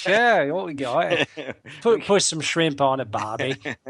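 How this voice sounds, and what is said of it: Put-on Australian accent. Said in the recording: “Australian”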